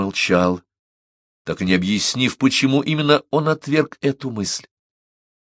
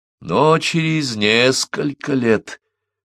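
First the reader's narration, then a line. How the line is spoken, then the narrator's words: Drawling. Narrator (Russian): протянул Парсел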